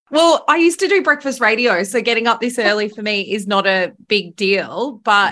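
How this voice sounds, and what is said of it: Australian accent. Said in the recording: “I love how you say radio. Radio. ... Love my accent. ... Australian”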